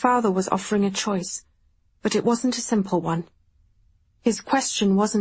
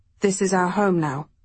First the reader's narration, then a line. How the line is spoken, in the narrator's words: he said